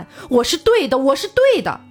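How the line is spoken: Shouting at the sky. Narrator (Chinese): 罗辑对着天空大喊

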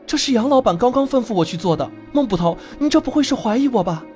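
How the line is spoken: Hurried, alarmed explanation. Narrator (Chinese): 陆小二脸色大变，急忙解释

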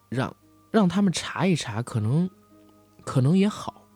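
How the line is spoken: Sighing. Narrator (Chinese): 婉玲叹了口气说

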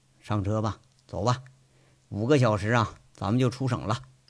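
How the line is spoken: Flat, calm. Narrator (Chinese): 杨伟淡淡的说着

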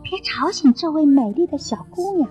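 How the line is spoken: Happy, soft. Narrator (Chinese): 他们高兴极了，轻声说

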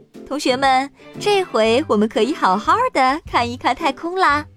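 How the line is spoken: Loud. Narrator (Chinese): 卡洛斯大声说

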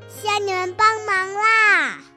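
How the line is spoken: Shouting. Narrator (Chinese): 朵拉喊着

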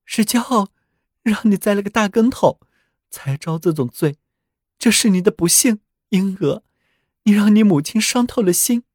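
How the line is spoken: Mother weeping, grieving. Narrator (Chinese): 他的母亲的确哭得很厉害，很悲痛，但接着又说

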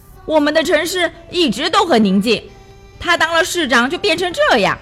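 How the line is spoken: Loud shout from crowd. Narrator (Chinese): 人群中有人高声叫着

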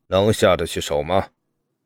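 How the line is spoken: Calm, cool question. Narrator (Chinese): 父皇淡淡的看着我，问

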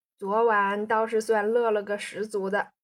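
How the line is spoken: Laughing. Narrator (Chinese): 宋仁清笑道

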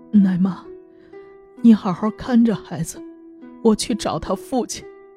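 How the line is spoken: Crying, face covered. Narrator (Chinese): 吕无病掩面哭泣说

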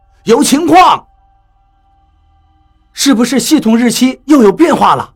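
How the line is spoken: Curious question. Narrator (Chinese): 好奇地问道

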